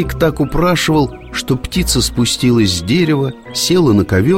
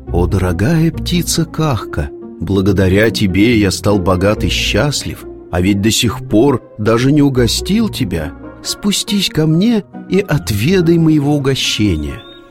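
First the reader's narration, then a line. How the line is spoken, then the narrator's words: Tender voice. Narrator (Russian): заговорил ласковым голосом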